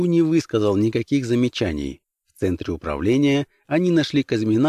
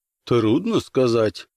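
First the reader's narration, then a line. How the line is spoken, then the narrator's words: Grumbled. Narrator (Russian): проворчал Казьмин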